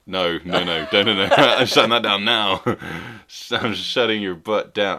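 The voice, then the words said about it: Imitates another person's voice. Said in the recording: “I just did an accent to my Quentin Tarantino impression.”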